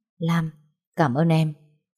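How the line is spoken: Soft. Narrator (Vietnamese): Vũ khẽ nói

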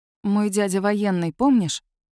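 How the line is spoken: Soft question. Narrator (Russian): Мягко спрашиваю я

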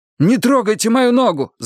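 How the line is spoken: Yelling. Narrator (Russian): завопил я

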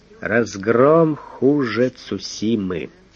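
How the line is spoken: Mournful statement. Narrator (Russian): Фондорин же констатировал траурным голосом

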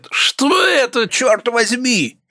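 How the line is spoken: Shout. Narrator (Russian): закричал кто-то

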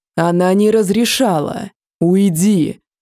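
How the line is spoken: Growled. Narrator (Russian): Рычание Теля

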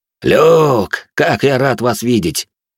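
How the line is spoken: Joyful. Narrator (Russian): радостно произнес Бриан

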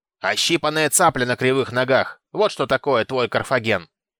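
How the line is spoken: Delighted crowd shouting. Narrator (Russian): Придворные не смогли сдержать восторга, закричали

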